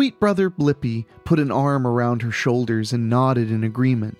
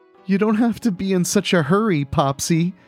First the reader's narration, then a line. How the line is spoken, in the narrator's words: Sweet Pea Cheapskate sobbed